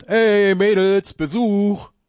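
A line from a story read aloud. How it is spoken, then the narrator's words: Calling out. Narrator (German): Semper ruft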